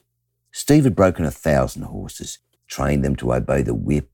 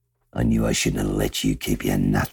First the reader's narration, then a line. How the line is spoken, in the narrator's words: he muttered